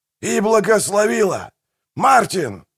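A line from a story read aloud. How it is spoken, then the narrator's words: Yelling. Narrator (Russian): заорал Манфред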